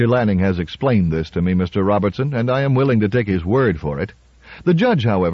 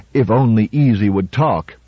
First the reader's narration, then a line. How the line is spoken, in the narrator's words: Robertson growled